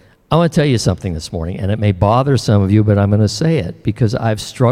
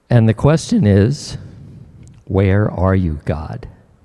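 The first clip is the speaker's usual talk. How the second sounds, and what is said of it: Emotional, choked-up voice. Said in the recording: “getting emotional”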